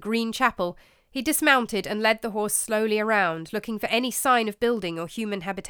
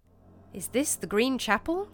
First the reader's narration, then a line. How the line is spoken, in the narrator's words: Gawain murmured quietly to himself